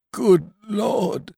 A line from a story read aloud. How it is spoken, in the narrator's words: cried Biffy, quivering like a jelly